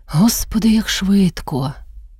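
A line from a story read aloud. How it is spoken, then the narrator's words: Sighing. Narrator (Ukrainian): Вона зітхнула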